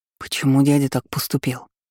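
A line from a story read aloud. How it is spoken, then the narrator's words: Dejected whisper. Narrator (Russian): шептал Лайонел, не в силах поднять голову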